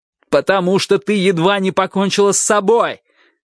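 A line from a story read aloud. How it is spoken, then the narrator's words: Shouting. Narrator (Russian): крикнул я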